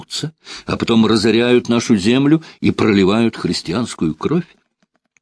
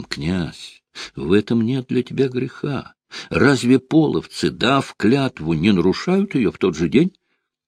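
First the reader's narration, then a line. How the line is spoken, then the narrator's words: Heartfelt persuasive voice. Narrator (Russian): Славяту убеждал проникновенным голосом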